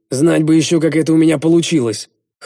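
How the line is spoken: Wry snort. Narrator (Russian): хмыкнул я

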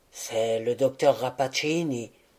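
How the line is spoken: Said quietly, professor. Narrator (French): dit tout bas le professeur

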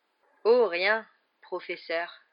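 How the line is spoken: Slightly sarcastic reply. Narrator (French): répondit-il d'un ton légèrement sarcastique

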